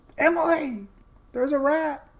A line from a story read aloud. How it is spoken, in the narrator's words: She screamed